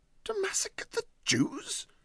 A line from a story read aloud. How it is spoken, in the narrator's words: said Huddle indignantly